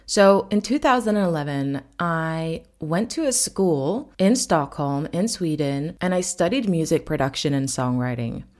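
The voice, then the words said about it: American-sounding English accent. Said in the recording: “I get a lot of questions about my accent because people think I'm American, but I am not. I am from Norway”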